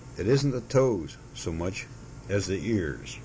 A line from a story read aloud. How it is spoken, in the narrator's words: he said solemnly